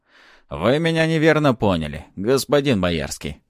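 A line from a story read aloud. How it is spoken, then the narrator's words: Snorting. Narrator (Russian): хмыкнул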